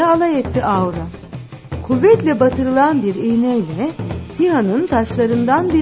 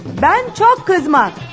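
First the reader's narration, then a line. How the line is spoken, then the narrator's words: Shouted. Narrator (Turkish): diye bağırdı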